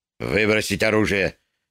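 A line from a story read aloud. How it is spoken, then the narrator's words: Quiet command. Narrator (Russian): тихо приказал худощавый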